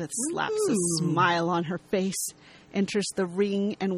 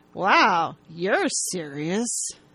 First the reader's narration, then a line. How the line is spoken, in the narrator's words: She says through gritted teeth and a big smile